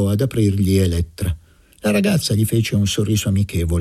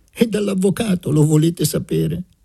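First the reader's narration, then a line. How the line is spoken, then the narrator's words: Laughing speech. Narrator (Italian): disse ridendo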